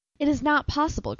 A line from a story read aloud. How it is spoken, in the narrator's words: cried the mother